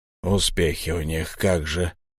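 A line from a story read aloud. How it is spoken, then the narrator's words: Grumbled. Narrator (Russian): буркнул Лихмусар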